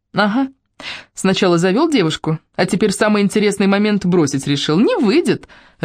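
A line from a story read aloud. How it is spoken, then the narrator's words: Laughing. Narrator (Russian): рассмеялась Ольга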